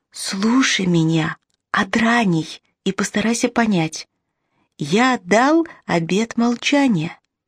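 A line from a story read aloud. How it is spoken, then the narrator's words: Whispered. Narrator (Russian): Младший произнес шепотом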